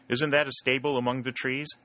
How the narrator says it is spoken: asked Jackson

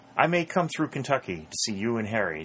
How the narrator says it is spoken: said Pennington

